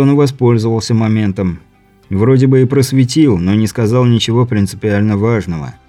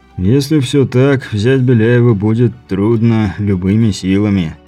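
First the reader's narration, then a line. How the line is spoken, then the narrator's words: Sighing. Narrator (Russian): вздохнув, сказал Бибик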